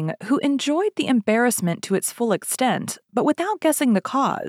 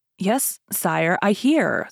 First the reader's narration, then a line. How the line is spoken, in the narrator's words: stammered the queen